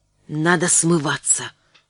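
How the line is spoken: Whisper. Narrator (Russian): шепнул Ивановский

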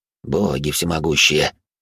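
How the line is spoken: Barely audible whisper. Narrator (Russian): еле слышно прошептал Вольт

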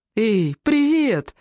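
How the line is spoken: Laughing exclamation. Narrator (Russian): воскликнула, смеясь

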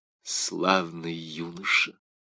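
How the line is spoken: King's whisper. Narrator (Russian): прошептал король

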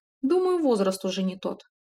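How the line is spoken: Smirking snort. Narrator (Russian): хмыкнул блондинчик

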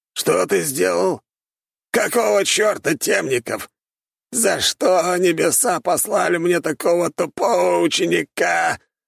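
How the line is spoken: Hoarse wheeze, coughing. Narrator (Russian): захрипел, вновь закашлявшись

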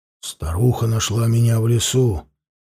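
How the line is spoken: Quiet, wary. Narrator (Russian): тихо проговорил Анил, настороженно оглядываясь

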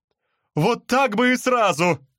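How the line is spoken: Shouted. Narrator (Russian): закричала Барбара

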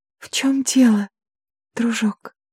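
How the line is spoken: Gentle question. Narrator (Russian): мягко спросила Грейс

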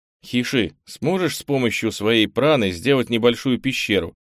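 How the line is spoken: Plain. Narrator (Russian): спросил Кенни

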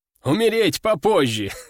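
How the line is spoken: Short guffaw, man. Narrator (Russian): хохотнул мужик

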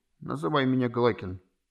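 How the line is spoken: Quiet male. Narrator (Russian): тихо произнес

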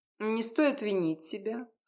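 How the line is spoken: Dry. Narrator (Russian): сухо продолжила Гленна

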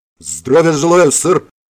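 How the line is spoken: Barking shout. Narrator (Russian): гаркнул

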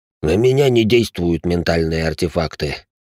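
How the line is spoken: Tired deep voice. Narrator (Russian): устало пробасил бывший лейтенант

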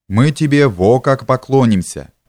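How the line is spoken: Plain. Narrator (Russian): сказал шаленый

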